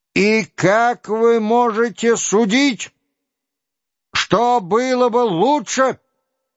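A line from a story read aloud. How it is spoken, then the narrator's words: Furious shout. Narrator (Russian): закричал он с лицом, вдруг налившимся кровью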